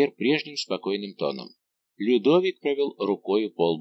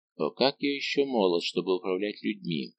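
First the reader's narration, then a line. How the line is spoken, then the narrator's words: Whisper. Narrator (Russian): прошептал он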